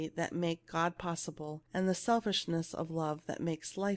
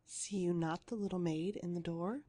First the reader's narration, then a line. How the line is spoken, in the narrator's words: she whispered low, for fear of the godly company